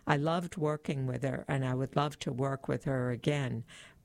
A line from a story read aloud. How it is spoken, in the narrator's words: Barnard said